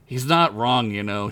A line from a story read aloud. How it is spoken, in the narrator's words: she said finally